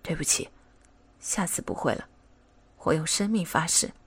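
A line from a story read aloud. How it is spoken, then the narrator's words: Low, soft voice. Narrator (Chinese): 高星宇低声说道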